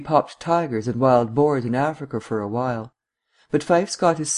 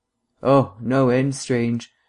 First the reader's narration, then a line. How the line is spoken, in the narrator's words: agreed Vance, a trifle wearily